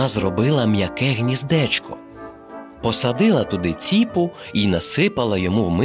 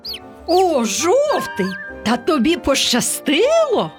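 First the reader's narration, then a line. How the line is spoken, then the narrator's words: Exclaimed together. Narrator (Ukrainian): вигукнули вони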